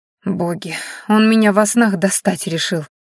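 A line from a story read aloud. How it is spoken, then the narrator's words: Moaning girl. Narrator (Russian): простонала девушка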